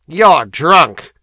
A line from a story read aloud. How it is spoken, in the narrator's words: snapped